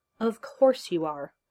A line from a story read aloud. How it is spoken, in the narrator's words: she said in the exasperated tone of a doctor treating a colleague